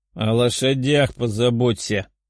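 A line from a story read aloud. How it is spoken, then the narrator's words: Demon's growl. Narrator (Russian): рыкнул демон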